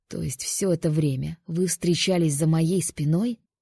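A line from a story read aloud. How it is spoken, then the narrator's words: Low growl. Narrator (Russian): Низко прорычал он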